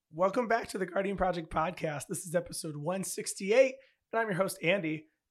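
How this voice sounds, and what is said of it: Hoarse, strained voice. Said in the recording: “I lost my voice this weekend. It was a long weekend where I was outside just talking really loud and yelling ... You sound like me after every robotics tournament.”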